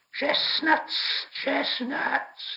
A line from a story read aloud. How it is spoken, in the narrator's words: hissed